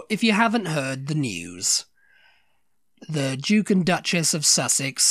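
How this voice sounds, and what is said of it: Usual voice. Nothing is said of it.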